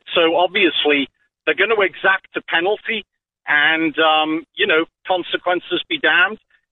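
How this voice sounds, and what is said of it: British accent. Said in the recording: “where's that accent from? ... I'm from the UK.”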